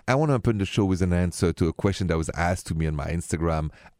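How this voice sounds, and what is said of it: French accent. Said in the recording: “My accent is French, français.”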